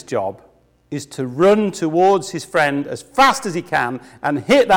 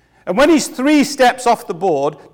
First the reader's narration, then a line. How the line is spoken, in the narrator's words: the friend yells